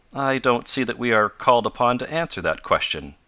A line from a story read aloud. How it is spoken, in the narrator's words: replied Professor Bumper stiffly